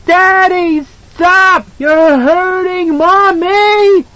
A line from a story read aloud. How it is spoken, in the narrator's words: He screamed piercingly, a high and crystal sound that she heard from far off